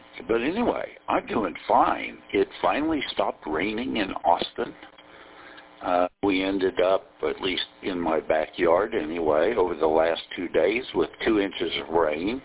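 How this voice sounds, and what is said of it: Mush-mouth Texas accent. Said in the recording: “Everything has a mush-mouth Texas accent to it.”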